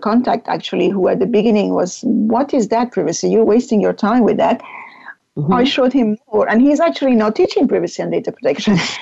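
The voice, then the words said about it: Speaks with a noticeable foreign accent. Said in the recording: “I hope my accent wasn't too difficult for your listeners.”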